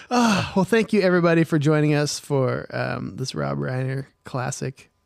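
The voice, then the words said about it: Slurred, tired-sounding speech. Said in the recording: “I'm slurring my words. I'm tired.”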